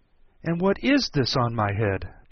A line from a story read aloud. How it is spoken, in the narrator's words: She exclaimed in a tone of dismay